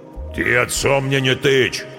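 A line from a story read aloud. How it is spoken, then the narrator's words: Deep bass voice. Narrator (Russian): пробасил Нежилец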